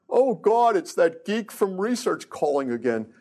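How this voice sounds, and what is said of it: Thick New York accent. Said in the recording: “in a real thick New York accent”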